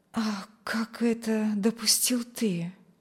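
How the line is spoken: Quiet question. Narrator (Russian): Негромко спросила она

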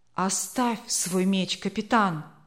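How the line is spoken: Soft, gentle. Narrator (Russian): мягко сказал начальник экспедиции Карвер

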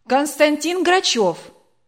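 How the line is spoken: Loud announcement. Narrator (Russian): дежурная громко назвала

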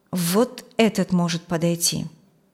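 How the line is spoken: Plain. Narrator (Russian): сказал Филипп

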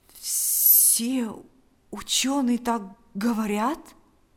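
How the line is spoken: Trembling question. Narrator (Russian): спросил Павел дрогнувшим голосом

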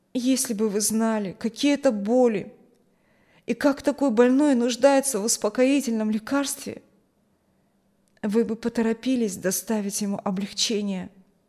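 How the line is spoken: Sad. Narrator (Russian): он так грустно посмотрел на нас и сказал

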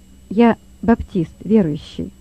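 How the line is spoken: Calm, bold reply. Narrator (Russian): ответил Лёва спокойно и смело

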